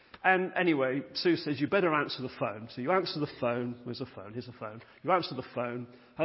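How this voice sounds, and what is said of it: Usual voice. Nothing is said of it.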